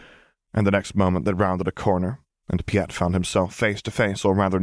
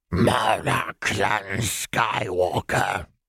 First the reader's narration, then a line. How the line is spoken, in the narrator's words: rasped